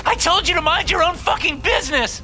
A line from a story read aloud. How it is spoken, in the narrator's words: She screams